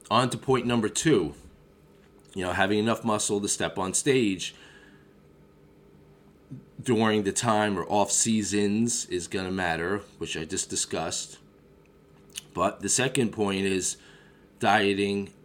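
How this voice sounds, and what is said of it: Voice affected by a cold. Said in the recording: “apologize for my voice because I got the suds. I think everyone does in the Northeast.”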